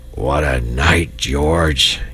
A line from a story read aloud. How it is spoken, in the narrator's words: he murmured